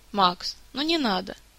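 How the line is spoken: Soft interruption. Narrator (Russian): мягко перебил его Рес

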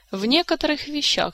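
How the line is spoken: Sigh. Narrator (Russian): вздохнул Кантор

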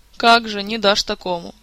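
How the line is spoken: King sighing. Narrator (Russian): вздохнул король

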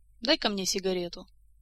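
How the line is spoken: Sudden, after thoughtful pause. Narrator (Russian): Элмар задумчиво помолчал и вдруг сказал

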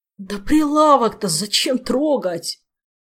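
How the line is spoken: Moaning. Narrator (Russian): простонал Кангрен

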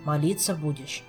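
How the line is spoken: Sighing. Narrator (Russian): вздохнул Жак

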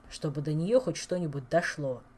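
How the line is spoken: Angry grumble, king. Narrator (Russian): сердито проворчал король

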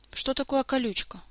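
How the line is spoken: Weary, fed-up question. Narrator (Russian): устало уточнил Орландо, которому, видно, уже надоело переспрашивать на каждом слове

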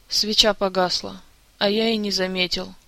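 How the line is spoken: Quiet, flat voice. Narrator (Russian): тихим, бесцветным голосом пояснил Жак

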